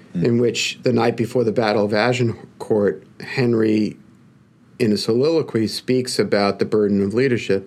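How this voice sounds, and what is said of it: Brooklyn accent. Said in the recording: “my Brooklyn accent.”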